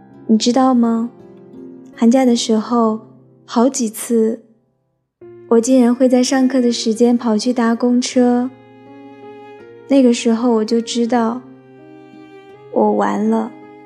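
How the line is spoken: Choked-up girl. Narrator (Chinese): 那个女孩有点哽咽地说

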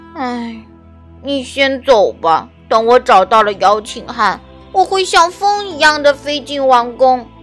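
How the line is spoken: Resigned sigh. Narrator (Chinese): 他只好叹了一口气

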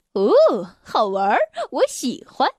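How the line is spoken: Grinning. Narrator (Chinese): 挠痒痒先生咧嘴笑着

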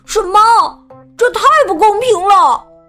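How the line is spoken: Angry shout. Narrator (Chinese): 富兰克林气得大叫起来

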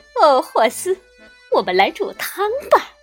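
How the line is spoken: Laughing woman. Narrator (Chinese): 她笑着说

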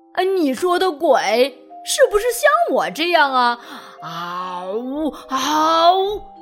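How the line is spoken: Laughing loudly while chewing. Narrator (Chinese): 迪迪嚼着水草，哈哈大笑起来，哈哈哈哈哈

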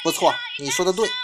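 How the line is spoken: Smiling, approving. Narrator (Chinese): 宫城一笑啊，赞许道

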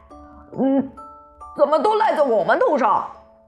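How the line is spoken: Angry. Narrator (Chinese): 唐飞愤怒地

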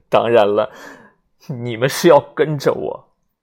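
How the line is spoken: Hysterical laughter. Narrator (Chinese): 威勒 歇斯底里的笑了起来，一边笑一边说

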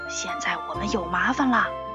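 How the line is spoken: Quiet complaining. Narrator (Chinese): 乘客们也小声的抱怨说

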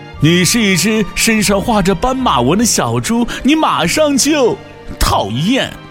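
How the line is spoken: Laughing. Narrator (Chinese): 大象笑着说

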